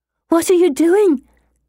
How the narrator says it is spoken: Anne says in a loud, panicked whisper

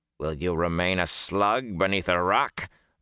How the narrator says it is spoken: Balsamon snarled

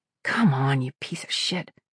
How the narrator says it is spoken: she muttered

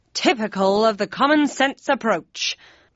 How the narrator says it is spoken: barked Kane

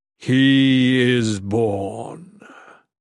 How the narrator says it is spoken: the Dark God intoned gravely

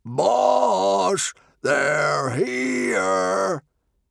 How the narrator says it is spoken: One of the barbarians shouted

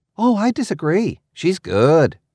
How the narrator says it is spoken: Triss exclaimed

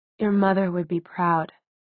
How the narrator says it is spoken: he said so quietly that even Clary, standing beside him, had to strain to hear it

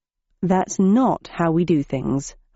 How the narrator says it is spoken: I said in a quiet voice

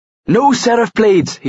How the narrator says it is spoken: he cried

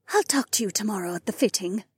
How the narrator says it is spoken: Janel whispered

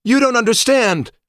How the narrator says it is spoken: shouted

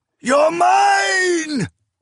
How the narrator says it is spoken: He howled

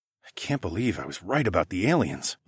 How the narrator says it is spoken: I muttered

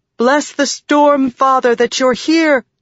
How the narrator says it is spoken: Shallan cried to the men

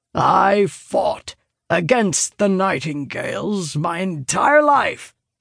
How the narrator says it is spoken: he growls

